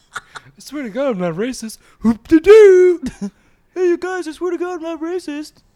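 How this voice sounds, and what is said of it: Silly put-on funny voice. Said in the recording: “Every time you say you're not racist, you do like a funny voice.”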